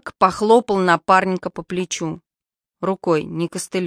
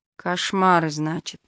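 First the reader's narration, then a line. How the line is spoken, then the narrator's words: Mumbled. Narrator (Russian): пробормотал лейтенант О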